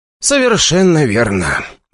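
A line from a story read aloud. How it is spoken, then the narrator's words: Reply with a sigh. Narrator (Russian): ответил мне Игорь и вздохнул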